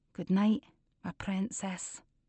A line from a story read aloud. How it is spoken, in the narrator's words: The kiss of her lips whispering